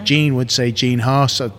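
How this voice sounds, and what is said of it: Attempted American accent. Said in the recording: “that attempt at an American accent ... It is an American kind of tone to it”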